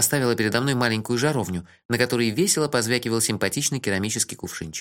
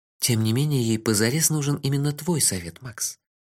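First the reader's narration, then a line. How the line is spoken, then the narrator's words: Gently. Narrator (Russian): мягко сказала Техи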